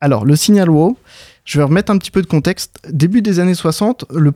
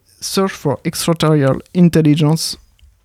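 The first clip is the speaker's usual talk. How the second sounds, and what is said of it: English accent on English phrase. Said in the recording (French): “J'ai un super accent anglais.”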